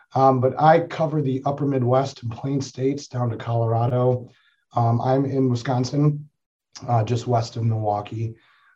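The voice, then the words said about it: Voice not fully recovered. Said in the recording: “I do apologize for my voice. I just recently got over a cold, and that is the last thing to return to me.”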